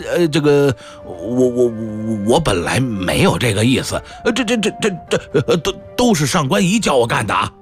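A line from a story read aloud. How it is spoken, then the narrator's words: Frightened stammering. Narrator (Chinese): 高宗见了武则天吓得好像矮了半截儿，结结巴巴地说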